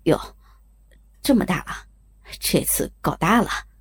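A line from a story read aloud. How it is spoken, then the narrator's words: Quiet mumbling. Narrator (Chinese): 小声地嘟囔着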